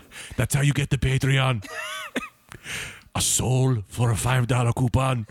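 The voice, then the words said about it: Werner Herzog impression accent. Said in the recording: “no matter what accent you think you're doing, yes, you're doing Werner Herzog”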